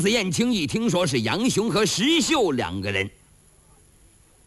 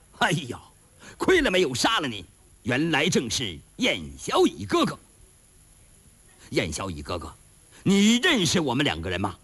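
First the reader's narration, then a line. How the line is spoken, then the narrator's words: Laughing. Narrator (Chinese): 这两个大汉听完燕青这些话，他笑了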